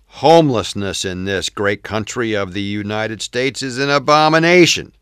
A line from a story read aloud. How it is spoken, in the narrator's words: C exclaimed